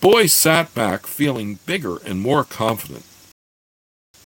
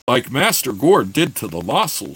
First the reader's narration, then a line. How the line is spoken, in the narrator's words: Shad said eagerly